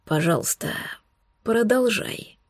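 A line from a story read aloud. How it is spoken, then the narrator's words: Barely audible croak. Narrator (Russian): прохрипел едва слышно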